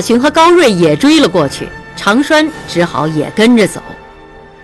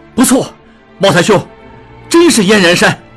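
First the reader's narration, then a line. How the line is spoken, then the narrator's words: Excited exclamation. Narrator (Chinese): 智庸激动起来，叫道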